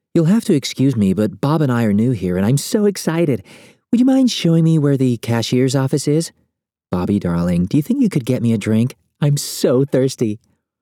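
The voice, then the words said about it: Airhead impersonation voice. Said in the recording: “She does an inspired airhead impersonation.”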